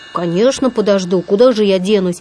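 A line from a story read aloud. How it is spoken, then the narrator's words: Muttered under breath. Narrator (Russian): пробормотал Винни себе под нос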